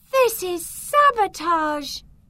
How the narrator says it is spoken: She shouted

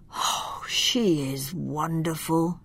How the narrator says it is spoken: he sighed

